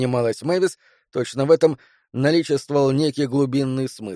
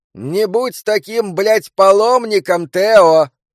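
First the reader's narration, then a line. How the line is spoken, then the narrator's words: Shouted after someone. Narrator (Russian): крикнула ему вслед Мэвис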